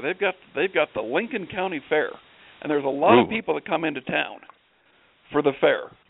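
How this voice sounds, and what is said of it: Slight Wyoming country twang. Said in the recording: “I think you had a little bit of a twang to that ... it sounded a little more of a twang than I thought when you said come in town for the fair”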